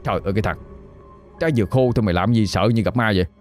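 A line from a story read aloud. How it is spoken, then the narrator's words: Gruff scolding reply. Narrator (Vietnamese): Liêm mới gằn giọng mà đáp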